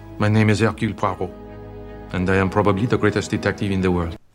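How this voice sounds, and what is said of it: French accent. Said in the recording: “Kenneth Branagh do a French accent ... he sounds like Eddie Izzard”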